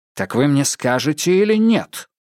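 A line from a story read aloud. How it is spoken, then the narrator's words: Sharp question after pause. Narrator (Russian): После долгой паузы Адамс спросил резко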